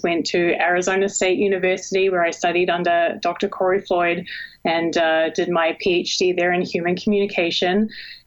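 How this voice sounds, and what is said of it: New Zealand accent. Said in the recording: “you can probably already hear an accent. I was actually born and raised in New Zealand”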